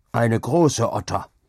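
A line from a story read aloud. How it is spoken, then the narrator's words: Old man panting, calling. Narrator (German): rief der Alte schnaufend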